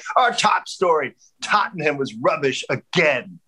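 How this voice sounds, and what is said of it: Put-on angry English accent. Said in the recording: “he's got this English accent, right? ... it sounded like he was like so angry about it”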